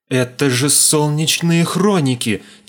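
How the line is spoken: Heavy exhale. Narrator (Russian): тяжело выдохнул я

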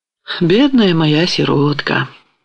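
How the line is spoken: Affectionate. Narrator (Russian): произнес ласково Мазепа

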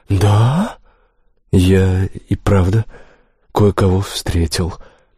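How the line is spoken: Mumbling. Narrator (Russian): промямлил

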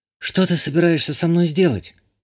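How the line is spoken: Frightened question. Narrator (Russian): Испуганно спросила Иштания

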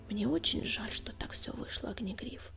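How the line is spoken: Quiet. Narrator (Russian): тихо сказал он

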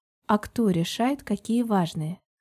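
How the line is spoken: Soft question. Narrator (Russian): Спросила я мягко

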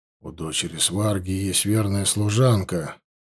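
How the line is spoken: Quiet. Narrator (Russian): негромко проговорил Ашва

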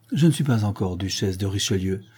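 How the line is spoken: Sighing. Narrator (French): dit en soupirant la châtelaine de Beaujeu

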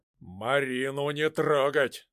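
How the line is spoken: Menacing. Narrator (Russian): грозно сказал Шуйский

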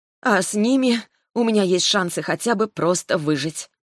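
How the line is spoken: Mumbled. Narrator (Russian): пробормотала я

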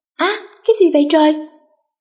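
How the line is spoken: Startled loud yell. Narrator (Vietnamese): Do đang ngủ say sưa thì tự nhiên bị ngã xuống đất, làm cho nó giật mình bèn hét toáng lên

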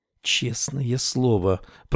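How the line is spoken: Anxious whisper. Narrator (Russian): прошептала она, тревожно глядя на дверь

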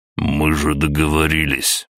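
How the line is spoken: Through gritted teeth. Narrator (Russian): процедил Дмитрий

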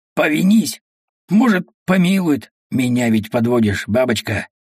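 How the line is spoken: Hoarse, muffled, hateful. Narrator (Russian): хрипло, глухо, ненавистно

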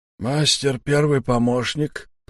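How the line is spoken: Wheezy rasp. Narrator (Russian): просипел Сиплый

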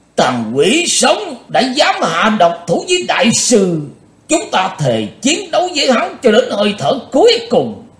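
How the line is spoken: Cold-faced loud roar. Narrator (Vietnamese): Thành Dương đạo nhân mặt lạnh như đất, ông ta gầm to lên

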